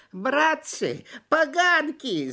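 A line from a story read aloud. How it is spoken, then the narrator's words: Wailing shriek. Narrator (Russian): завопил мухомор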